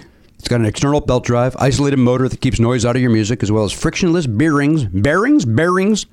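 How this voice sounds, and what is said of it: Usual voice. Nothing is said of it.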